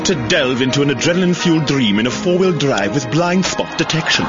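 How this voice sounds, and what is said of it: Eloquent put-on British accent. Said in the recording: “It's delivered in an eloquent British accent”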